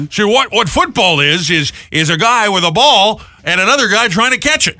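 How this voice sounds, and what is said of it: Loud imitation of another person's voice. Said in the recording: “I was in a loud noise environment when I did a John Madden impression ... I'll tone it down ... my John Madden impression”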